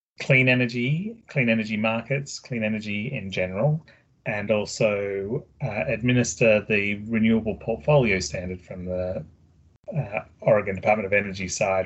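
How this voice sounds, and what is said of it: Australian accent. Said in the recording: “I do have an accent. I'm originally from Australia ... you do have a very lovely accent”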